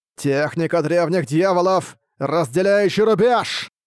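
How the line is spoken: Growling. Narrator (Russian): зарычал Тадзя

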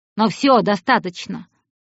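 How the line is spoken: Abruptly stopped laughing. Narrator (Russian): Он резко оборвал смех

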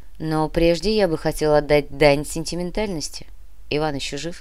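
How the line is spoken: Plain. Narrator (Russian): спросил Кортес

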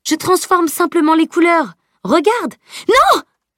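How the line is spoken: Screamed. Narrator (French): hurla Camille

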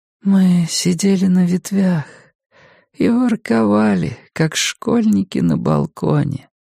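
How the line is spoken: Sleepy voice. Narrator (Russian): сонно говорила она

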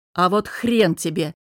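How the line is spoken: Angry snapping retort. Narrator (Russian): Выходя из себя, огрызнулся я

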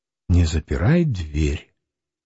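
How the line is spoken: Whisper. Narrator (Russian): шепнула

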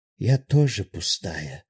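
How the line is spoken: Sighing. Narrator (Russian): вздохнула Эбби

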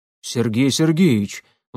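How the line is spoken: Excited exclamation. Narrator (Russian): взволнованно воскликнул Бердышев

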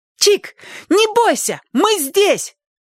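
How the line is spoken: Sudden shrill shout. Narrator (Russian): вдруг пронзительно крикнула Сонька

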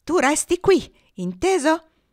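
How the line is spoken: Shouted. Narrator (Italian): gridò

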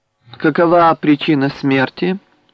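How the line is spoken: Calm inquiry. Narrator (Russian): спокойно осведомился его светлость

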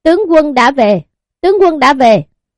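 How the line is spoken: Loud cry. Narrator (Vietnamese): gào to một tiếng

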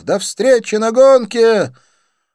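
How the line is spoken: Shouted. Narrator (Russian): крикнув

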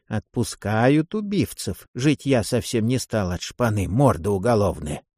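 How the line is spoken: Hissing. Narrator (Russian): одна из них вслед мне прошипела

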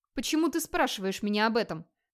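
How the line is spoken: Sharp question. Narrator (Russian): резко спросил Вигмар

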